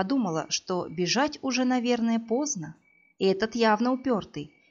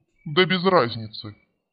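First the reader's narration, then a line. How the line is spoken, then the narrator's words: Calm dismissive man. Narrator (Russian): спокойно отмахнулся мужчина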